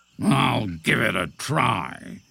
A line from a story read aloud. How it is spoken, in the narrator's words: he growled